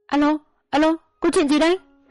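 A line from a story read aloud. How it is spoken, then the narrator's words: Woman shouting. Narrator (Vietnamese): Vợ cụm hét lên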